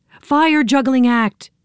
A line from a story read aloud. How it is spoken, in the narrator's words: yelled Joe